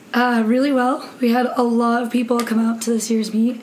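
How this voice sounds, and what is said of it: Hoarse voice. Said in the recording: “a little hoarse,”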